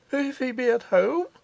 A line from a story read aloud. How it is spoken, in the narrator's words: faltered the artist